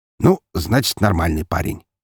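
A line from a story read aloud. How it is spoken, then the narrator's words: Snorting. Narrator (Russian): хмыкнул Громов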